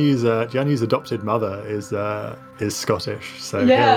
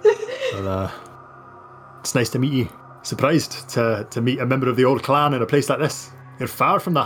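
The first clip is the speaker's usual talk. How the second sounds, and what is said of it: Put-on Scottish brogue. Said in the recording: “he'll slip into a Scottish brogue”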